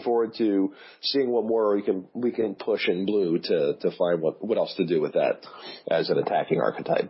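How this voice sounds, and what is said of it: Hoarse, ragged voice from cold. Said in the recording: “losing my voice more and more here too, as you can hear. I'm getting a little more ragged ... as this cold or whatever it is that I have is starting to settle into my chest”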